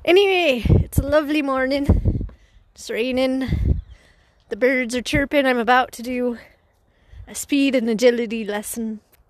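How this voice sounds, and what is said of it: Fake Irish accent. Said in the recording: “Today we're putting on fake accents. ... We've started with Irish”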